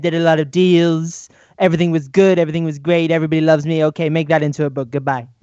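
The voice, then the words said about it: Donald Trump impression. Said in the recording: “Nice impersonation.”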